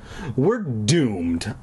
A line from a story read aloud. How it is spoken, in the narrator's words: I muttered sadly